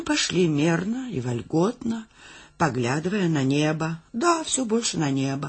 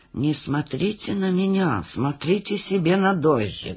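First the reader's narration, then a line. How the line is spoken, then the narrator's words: Muttering. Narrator (Russian): бормотал Гуськин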